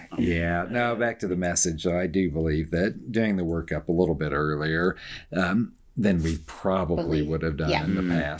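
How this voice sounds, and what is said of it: Strong Georgia Southern US accent. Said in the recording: “your voice is pretty... recognizable. There's not that many that have such a strong Georgia accent.”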